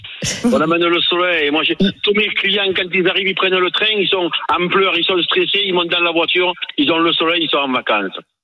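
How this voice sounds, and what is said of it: Southern French accent. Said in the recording (French): “c'est le plus bel accent de France de Navarre ... votre accent ... je suis fier de mon accent”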